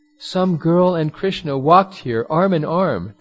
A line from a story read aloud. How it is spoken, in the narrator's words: They cried in agony